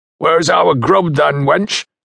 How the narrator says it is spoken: shouted one of them

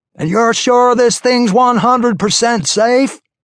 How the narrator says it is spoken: yelled over the music

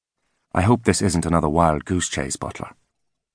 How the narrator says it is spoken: he said, his voice soft and clipped

